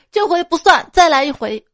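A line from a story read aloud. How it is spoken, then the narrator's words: Shouting after hearty laughter. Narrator (Chinese): 俩人哈哈大笑之后喊着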